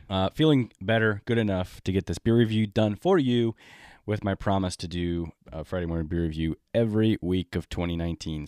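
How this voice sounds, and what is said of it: Sick, congested-sounding voice. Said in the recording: “my sniffer is probably a little bit broken. You can tell from my voice, I'm not um, 100% healthy ... of course, I'm going to get sick”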